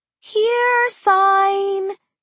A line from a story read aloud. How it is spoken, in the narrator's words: she cooed